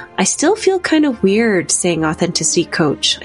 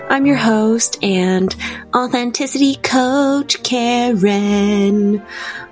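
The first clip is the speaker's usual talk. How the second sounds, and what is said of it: Deliberately weird, put-on voice. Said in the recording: “I guess that's why I made it into a weird voice.”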